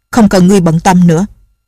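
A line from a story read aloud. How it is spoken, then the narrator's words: Angry. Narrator (Vietnamese): Nhạc Bất Quần tức giận nói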